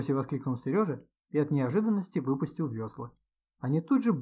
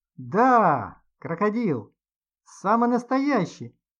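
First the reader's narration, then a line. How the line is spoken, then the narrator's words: Cheerful shout. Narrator (Russian): весело крикнул добренький дяденька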